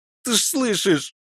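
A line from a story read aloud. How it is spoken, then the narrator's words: Pitiful tearful babbling. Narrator (Russian): Жалко, давясь слезами и откуда-то взявшимися соплями, пролепетал Вовчик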